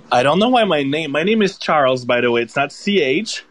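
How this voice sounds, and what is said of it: Canadian French accent. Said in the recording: “please don't mind the French accent ... it's not the European version. It's the Canadian version.”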